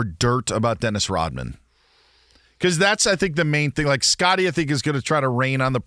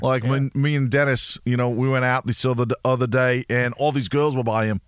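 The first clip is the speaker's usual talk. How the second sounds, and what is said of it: Put-on Australian accent. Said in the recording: “That was pretty good... How was that for Australian?... Credit to you for doing an Australian accent without doing the cliched line.”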